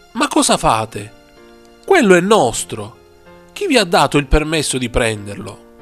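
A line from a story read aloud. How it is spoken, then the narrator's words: Offended exclamation. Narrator (Italian): i proprietari esclamarono urtati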